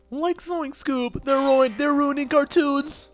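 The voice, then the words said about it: Okay Shaggy impression. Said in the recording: “that was an okay impression. But that back then was the good voice of Shaggy.”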